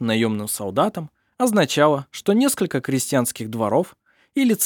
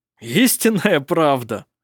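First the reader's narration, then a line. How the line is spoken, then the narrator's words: Laughing. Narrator (Russian): смеялся он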